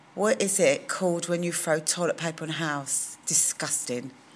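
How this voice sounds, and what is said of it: London accent. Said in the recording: “Do you think you have an accent? Absolutely. I'm a Londoner.”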